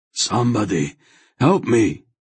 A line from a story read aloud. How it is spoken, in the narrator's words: Hetar called urgently